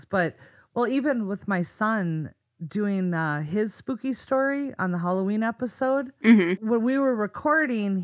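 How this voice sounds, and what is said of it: Minnesota accent. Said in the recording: “The Minnesota accent and growing up in northern Minnesota”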